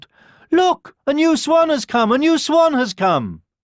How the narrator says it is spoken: a group of children cried out

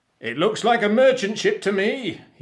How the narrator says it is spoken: he shouted

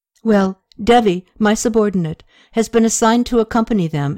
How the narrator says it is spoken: Toma paused in embarrassment and blurted out

